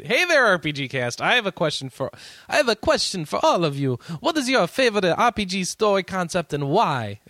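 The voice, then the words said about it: Put-on Italian accent. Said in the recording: “my Italian accent is horrible, by the way”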